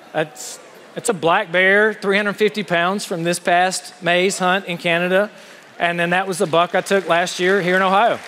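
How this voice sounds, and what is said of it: Southern US accent, slow drawl. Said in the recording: “I'm a Southerner. You get the accent... sometimes I string words along or give them multiple syllables... talk slowly”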